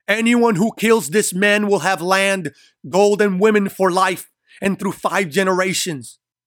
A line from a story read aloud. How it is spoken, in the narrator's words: Pontius desperately screams